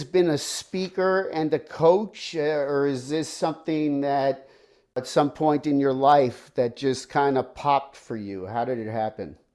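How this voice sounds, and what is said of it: Northern US accent. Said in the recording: “I could tell from your accent that you're definitely from up north somewhere”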